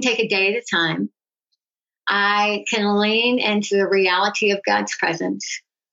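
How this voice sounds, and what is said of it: Impaired, imperfect speech. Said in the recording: “My speech is not perfect anymore. I used to have a great radio voice. I don't anymore.”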